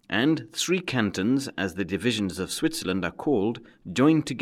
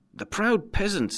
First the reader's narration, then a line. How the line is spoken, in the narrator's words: he cried